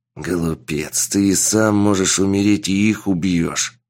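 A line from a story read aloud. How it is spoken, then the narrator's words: Old man's hiss. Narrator (Russian): прошипел старик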